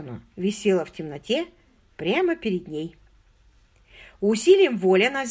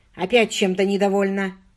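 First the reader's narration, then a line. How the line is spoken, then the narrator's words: Rude question. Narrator (Russian): грубо спросил он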